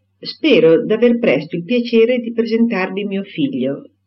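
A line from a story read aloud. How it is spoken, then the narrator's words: Plain. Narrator (Italian): disse Mr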